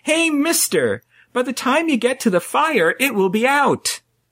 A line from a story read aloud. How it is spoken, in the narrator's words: a small boy yelled out